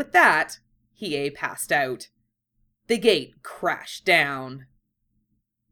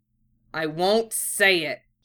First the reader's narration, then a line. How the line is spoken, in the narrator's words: said through gritted teeth